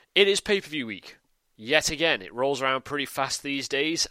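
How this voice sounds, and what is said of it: British accent. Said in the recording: “I'm a Brit, as you can probably tell from the accent”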